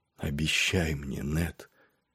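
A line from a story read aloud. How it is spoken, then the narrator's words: Weak dying whisper. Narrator (Russian): прошептала сестра со своего кровавого ложа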